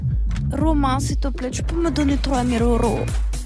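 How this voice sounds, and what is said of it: Put-on Russian accent. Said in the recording (French): “On va vite fait l'accent russe”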